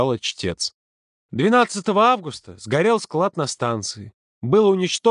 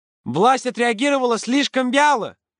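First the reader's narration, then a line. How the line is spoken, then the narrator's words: Loud. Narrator (Russian): громко произнесла Зина Портнова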